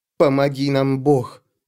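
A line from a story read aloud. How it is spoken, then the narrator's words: Muttered. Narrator (Russian): пробормотала Зури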